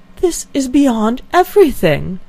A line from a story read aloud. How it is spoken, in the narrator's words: exclaimed Elinor